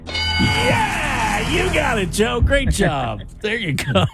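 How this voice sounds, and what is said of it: Game show host voice. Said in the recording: “game show voice there. My secret password game show voice.”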